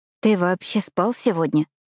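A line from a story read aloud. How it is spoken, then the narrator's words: Trembling voice. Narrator (Russian): поинтересовалась я дрожащим голосом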